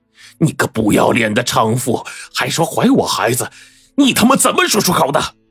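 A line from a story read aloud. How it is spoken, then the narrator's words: Brazen, self-righteous. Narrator (Chinese): 张小芳被揭穿老底，反倒是没有了顾忌，振振有词的说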